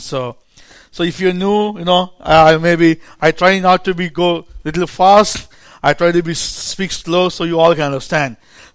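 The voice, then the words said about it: Indian-accented English. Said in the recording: “the Indian preacher ... my accent, my English may be a little bit new to the new people ... they're used to my accent”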